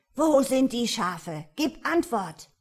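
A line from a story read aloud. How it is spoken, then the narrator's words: Roaring ruler. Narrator (German): brüllte der Padischah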